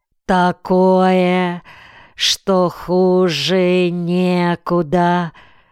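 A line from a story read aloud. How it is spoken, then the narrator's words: Drawn-out. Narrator (Russian): протянула Цуца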